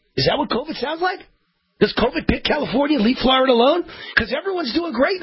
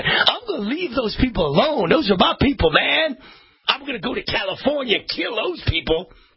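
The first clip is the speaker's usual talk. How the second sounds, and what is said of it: Put-on regional accent. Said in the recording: “Has COVID got that accent? Hey, COVID has an accent.”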